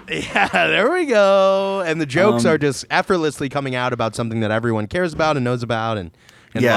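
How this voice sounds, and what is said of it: Usual voice. Nothing is said of it.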